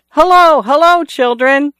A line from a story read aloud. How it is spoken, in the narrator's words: He shouted